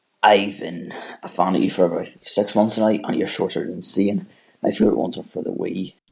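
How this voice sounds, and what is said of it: British accent. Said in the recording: “I love your accent. ... I'm from the UK”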